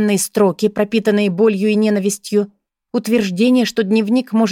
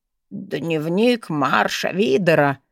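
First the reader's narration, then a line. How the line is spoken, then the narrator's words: Bewildered mutter. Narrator (Russian): растерянно пробормотал архивариус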